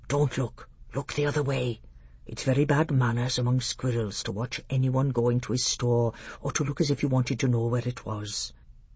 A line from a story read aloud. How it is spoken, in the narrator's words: Truffle Hunter whispered